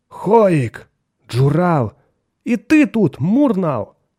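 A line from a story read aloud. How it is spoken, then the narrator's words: Exclaimed greeting. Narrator (Russian): воскликнул Меррик, приветствуя своих друзей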